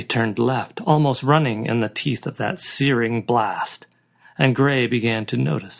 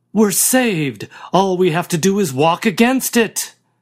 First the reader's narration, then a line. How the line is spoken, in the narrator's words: someone shouted